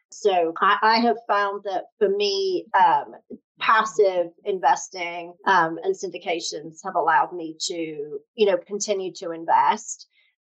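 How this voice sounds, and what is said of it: British accent. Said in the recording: “my funny accent, I'm from the UK originally”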